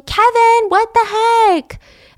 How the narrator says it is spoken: she's frantically

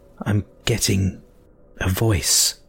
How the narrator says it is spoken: croaked

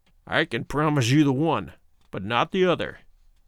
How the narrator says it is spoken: he snarled

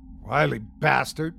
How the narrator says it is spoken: muttered someone else

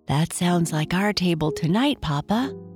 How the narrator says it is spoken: Bernice whispered

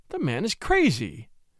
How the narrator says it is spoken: exclaimed Mrs

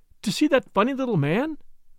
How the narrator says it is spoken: exclaimed Caroline

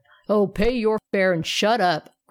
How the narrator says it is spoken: growled the polar bear

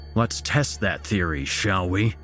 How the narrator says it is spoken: Jacob growled

